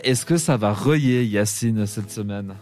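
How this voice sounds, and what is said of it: Put-on Vaudois Swiss French accent. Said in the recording (French): “Comme on le dit d'un bon accent vaudois”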